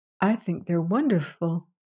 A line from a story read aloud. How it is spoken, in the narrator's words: said Valency timidly